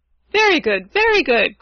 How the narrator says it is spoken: cried Rugadoo gleefully

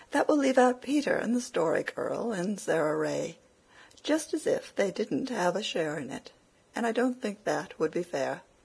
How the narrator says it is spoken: said Cecily timidly

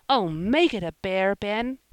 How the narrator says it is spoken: cried Joel, terribly disappointed

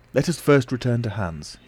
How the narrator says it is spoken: he said

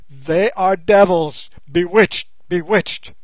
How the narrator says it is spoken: the man stared aghast, protective armor being unknown among these tribes, and then he yelled out at the top of his voice

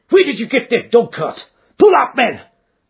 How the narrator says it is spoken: he yelled

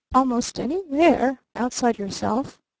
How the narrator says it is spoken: murmured the older man blandly

